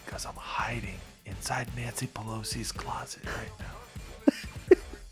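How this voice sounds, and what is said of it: Whispering, very quiet voice. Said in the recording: “I'm whispering ... I'm being very quiet.”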